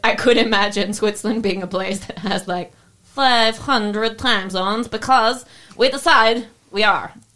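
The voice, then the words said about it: Bad put-on Russian accent. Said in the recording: “Oh, the Russian accents come back ... Swiss people don't sound like Russians ... that's a shitty-ass Russian accent ... my Russian accent”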